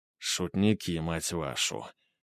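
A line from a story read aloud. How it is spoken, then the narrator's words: Quiet. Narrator (Russian): тихо проговорил Папандопуло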